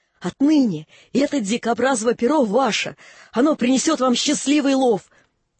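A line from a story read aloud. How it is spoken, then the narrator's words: Excited, teeth chattering from cold. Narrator (Russian): Женька, постукивая от утреннего холодка зубами, сказал взволнованно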